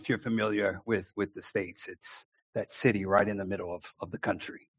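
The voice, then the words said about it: American Midwestern Chicago accent. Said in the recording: “your accent isn't broccoli ... The accent isn't broccoli. So I was born and raised in Chicago, and that's where I'm from, the Midwest.”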